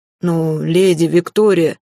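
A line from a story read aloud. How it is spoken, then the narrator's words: Deep bass voice. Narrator (Russian): пробасил лорд Ренард, перебив Эрелива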